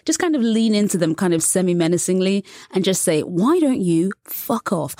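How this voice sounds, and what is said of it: British accent. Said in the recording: “I have a British accent, which is pleasing to many American ears ... a charming British accent”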